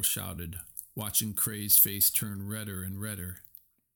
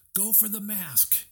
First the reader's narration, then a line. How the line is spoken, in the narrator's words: he yelled to Baymax